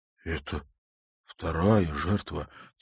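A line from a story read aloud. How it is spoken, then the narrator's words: Quiet. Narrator (Russian): тихо произнес Тимофей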